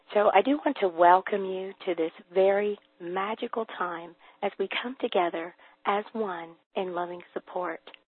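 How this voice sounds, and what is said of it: Hoarse voice from laryngitis. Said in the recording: “I do have a little bit of laryngitis. Actually, I guess I have a lot”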